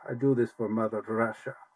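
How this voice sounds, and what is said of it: Put-on Russian accent, Dracula-like. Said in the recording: “I need to do Russian accent for you. ... No, you sound like Dracula.”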